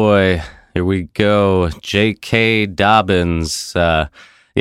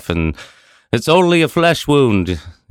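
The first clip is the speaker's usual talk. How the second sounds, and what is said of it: Put-on British accent. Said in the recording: “that's my British accent there”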